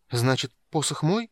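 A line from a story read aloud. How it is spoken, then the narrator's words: Timid young man's question. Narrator (Russian): робко спросил юный маг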